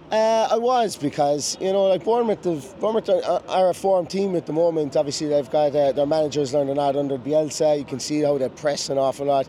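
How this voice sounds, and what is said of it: Hoarse, nearly lost voice. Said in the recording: “I can barely speak, as you guys can probably tell. My voice is gone”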